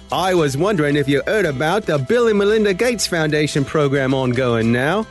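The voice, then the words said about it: Exaggerated put-on Australian accent. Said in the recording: “read through them using ridiculous Australian accents”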